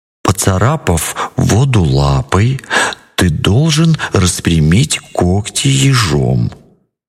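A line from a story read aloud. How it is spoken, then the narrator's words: Plain. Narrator (Russian): сказал колючка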